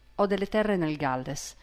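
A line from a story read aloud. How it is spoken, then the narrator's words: Began quietly. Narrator (Italian): cominciò sottovoce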